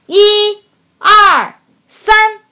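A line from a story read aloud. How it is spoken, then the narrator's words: Loud counting. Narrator (Chinese): 万亚开始大声数着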